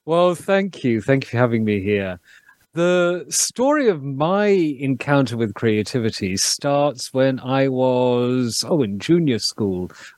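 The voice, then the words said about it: Speaks with a noticeable accent. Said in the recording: “bring that wonderful accent.”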